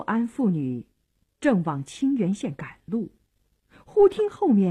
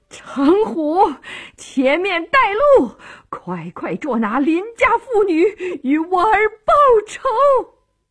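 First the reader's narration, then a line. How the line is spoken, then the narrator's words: Furious hoarse screaming. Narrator (Chinese): 诰命一听，气得像只母狼，声嘶力竭地喊道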